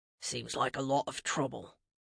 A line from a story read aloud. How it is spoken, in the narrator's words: Mads muttered